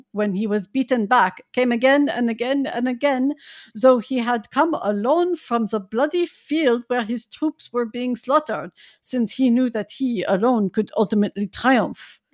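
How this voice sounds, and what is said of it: Put-on character accent. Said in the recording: “I do a really excellent Jonathan Harker accent”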